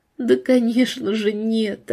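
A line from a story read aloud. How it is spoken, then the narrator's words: Tearful, almost smiling. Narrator (Russian): ответила гостья и почти улыбнулась сквозь слезы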